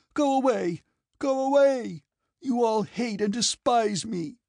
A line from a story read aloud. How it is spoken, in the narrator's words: Natasha cried out